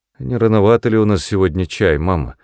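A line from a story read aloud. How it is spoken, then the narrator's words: Lazy remark. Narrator (Russian): заметила лениво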